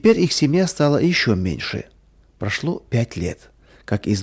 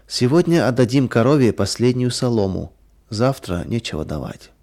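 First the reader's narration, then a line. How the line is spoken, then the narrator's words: Sad. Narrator (Russian): Мария печально сказала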